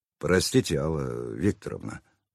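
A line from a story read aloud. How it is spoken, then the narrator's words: Contrite mutter. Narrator (Russian): пробормотал я покаянно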